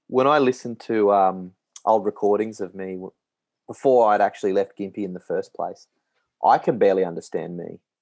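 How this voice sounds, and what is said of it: Strong, heavy regional accent. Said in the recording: “It's a little bit stronger than I'm used to. Took a while for me to be able to understand what you're saying ... would you say that your accent is getting heavier? Because I would.”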